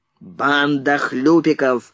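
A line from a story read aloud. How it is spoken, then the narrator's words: Barked. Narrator (Russian): рявкнул Фриц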